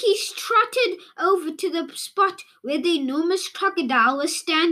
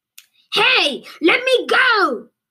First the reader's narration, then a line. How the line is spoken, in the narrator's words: yelled the enormous crocodile, who was now dangling upside down